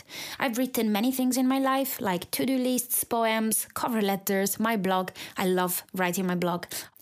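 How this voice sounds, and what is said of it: Italian accent speaking English. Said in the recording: “you can probably tell by my accent that English is not my first language ... being Italian, which is where I'm from”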